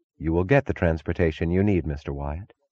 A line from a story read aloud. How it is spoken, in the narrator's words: She answered evenly